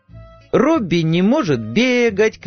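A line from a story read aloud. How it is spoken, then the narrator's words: Child screaming loudly. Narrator (Russian): кричала во всю силу своего 8-летнего голоса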